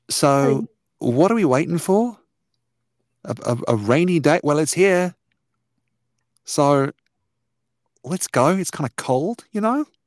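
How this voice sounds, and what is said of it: Character voice with put-on accent. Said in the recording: “I have to remember the accent because it's been a little while.”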